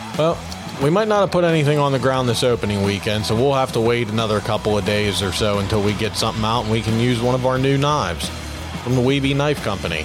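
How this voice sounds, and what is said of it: Boston accent. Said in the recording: “the Boston accent again”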